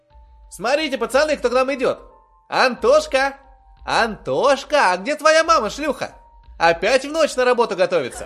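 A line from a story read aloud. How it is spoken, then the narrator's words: Mocking ringing children's voices. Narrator (Russian): Ясные, звонкие, терзающие душу голоса из детства насмешливо завопили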